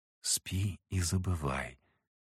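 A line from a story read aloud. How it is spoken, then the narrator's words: Whispered. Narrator (Russian): прошептала Анна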